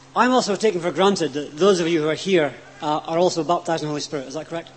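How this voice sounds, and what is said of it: Strong foreign accent. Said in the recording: “change my accent so you can all understand me”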